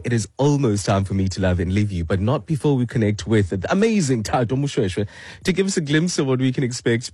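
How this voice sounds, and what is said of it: Sick, compromised-sounding voice. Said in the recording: “my voice is compromised because of flu ... at least I'm audible”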